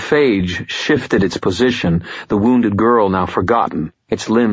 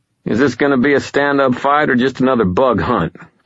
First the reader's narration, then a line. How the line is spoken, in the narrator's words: I taunted